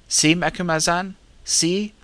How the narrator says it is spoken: said Mashune, excitedly

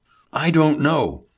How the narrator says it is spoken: Hubert exclaimed

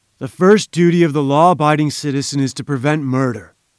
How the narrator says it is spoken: said Professor Challenger

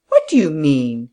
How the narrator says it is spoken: he said indignantly

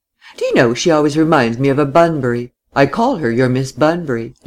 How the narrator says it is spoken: Laura laughed

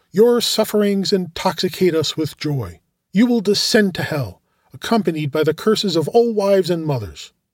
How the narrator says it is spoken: one of them exclaimed

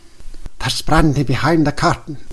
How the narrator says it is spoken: whispered the director

